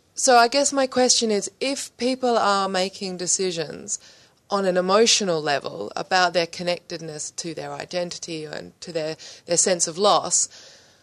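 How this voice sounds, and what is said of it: Immigrant's non-native accent. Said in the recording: “as you can tell from my accent, I'm one of them”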